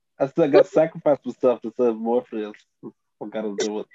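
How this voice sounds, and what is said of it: Put-on accent. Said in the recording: “What accent is that?”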